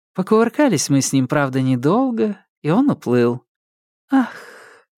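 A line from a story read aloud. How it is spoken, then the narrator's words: Theatrical sigh. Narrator (Russian): Она картинно вздохнула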